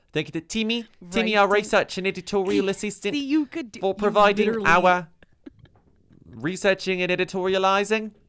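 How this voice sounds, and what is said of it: Put-on Australian accent. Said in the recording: “Do the entire sign off in Australian accent. ... You are literally doing it.”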